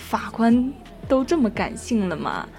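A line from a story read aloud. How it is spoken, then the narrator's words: Sighing. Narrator (Chinese): 李璐叹了口气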